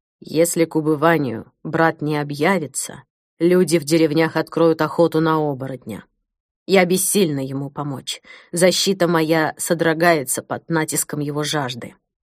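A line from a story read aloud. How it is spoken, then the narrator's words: Quiet. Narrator (Russian): тихо сказала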